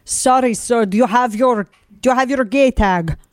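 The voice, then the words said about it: Attempted German accent, sounds Russian. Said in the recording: “I got to do it in my German accent ... Sounds more Russian. ... yeah, it does. I can't do a German accent.”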